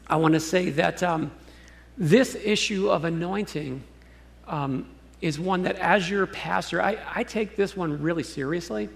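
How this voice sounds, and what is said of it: Voice cracking with emotion. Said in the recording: “my voice is cracking”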